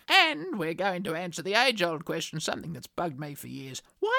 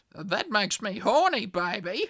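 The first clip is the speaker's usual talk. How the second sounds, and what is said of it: Imitates a film character's voice. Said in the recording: “my best Austin Powers impersonations”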